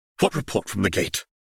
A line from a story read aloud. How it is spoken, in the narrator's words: she asked sharply